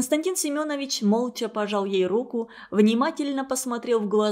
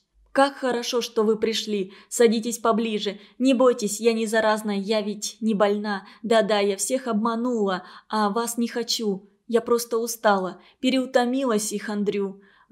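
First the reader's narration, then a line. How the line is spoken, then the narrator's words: Plain. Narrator (Russian): Василий Игнатьевич сказал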